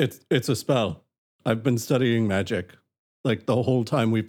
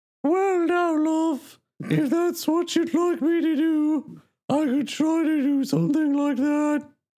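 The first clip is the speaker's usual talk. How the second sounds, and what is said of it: High-pitched put-on female-style accent. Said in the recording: “make yourself really high-pitched and adopt a Talarian accent ... You sound like Johannes trying to pretend to be a woman.”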